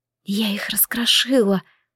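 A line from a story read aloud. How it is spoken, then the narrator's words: Whisper. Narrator (Russian): прошептала я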